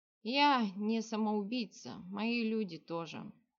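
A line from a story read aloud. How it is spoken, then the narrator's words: Heavy sigh. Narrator (Russian): тяжело вздохнул на него островитянин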